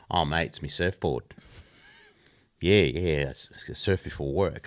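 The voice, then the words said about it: Put-on Australian accent. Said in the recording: “The accent.”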